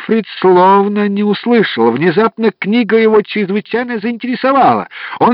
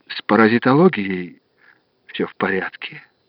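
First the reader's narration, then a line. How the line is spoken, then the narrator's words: Flat, expressionless voice. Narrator (Russian): ответил он ничего не выражающим голосом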